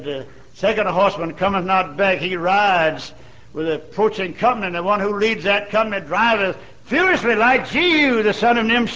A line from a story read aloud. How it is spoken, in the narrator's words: The watchman on the tower called out to Joram, said